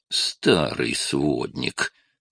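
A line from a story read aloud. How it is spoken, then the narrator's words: Grumbled. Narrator (Russian): проворчал Ред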